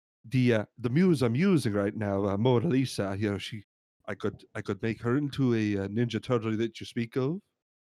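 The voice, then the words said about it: Put-on Italian accent. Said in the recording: “I'm from Italy. If you couldn't tell by my accent, I'm from Italy.”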